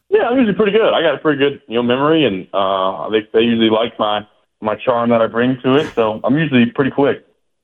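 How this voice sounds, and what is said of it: Southern drawl. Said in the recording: “I got a southern drawl, so people can't really understand me great anyway”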